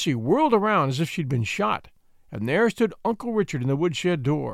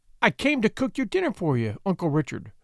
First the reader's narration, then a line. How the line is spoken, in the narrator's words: she stammered